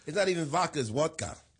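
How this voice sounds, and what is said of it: Put-on Russian-style accent. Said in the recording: “I like that accent.”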